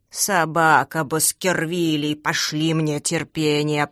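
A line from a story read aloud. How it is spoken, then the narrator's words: Groaning. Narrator (Russian): простонал Густав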